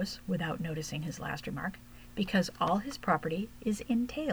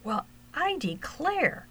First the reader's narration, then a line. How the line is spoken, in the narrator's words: cried Huckleberry